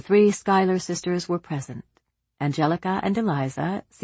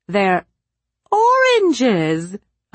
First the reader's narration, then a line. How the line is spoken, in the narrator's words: Aunt Gertrude almost shrieked